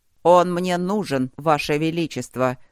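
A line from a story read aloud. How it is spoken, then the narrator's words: Angry shout. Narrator (Russian): зло крикнул Старов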